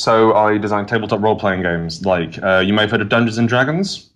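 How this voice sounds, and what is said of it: British accent. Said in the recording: “I am from the UK, as you might have judged by my accent”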